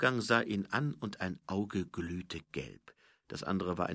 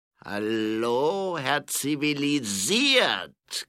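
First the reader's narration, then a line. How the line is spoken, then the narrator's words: Growl. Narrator (German): knurrte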